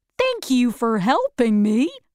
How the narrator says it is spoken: he said happily

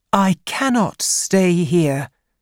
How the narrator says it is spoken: said Isis

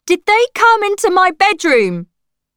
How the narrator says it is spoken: I shouted

